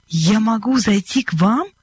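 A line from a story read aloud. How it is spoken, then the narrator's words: Joyful question. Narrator (Russian): радостно переспросил он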